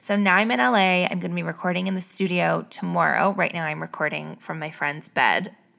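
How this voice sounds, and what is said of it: Raspy voice. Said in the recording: “my voice is so raspy. ... I've just been in so much air conditioning and probably just drinking a little too much.”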